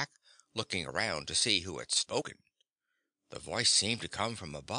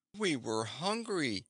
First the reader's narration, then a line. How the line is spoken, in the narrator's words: said the boy, pleadingly